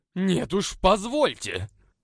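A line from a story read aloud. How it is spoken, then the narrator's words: Roaring. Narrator (Russian): Взревел в ответ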